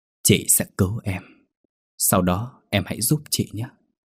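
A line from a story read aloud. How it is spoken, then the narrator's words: Whisper. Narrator (Vietnamese): Trong lúc thoi thóp thở, một người phụ nữ nói thì thầm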